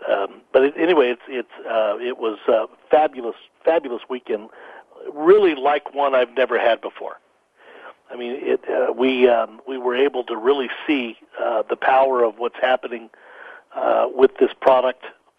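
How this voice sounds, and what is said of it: Slightly hoarse, fading voice. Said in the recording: “I'm losing my voice a little bit”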